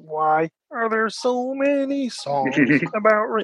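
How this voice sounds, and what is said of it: Kermit the Frog impression. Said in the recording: “I did a Kermit the Frog impression, ... it's not a very good one ... That's my Kermit.”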